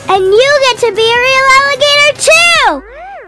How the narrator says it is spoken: she yelled out

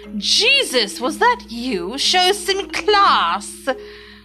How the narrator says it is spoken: Gerald Ford, the 38th president of the United States, loudly saying

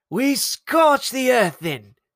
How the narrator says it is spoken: Mayela petitioned, the words flying wildly from her mouth

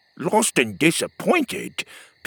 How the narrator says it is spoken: Petey snorted

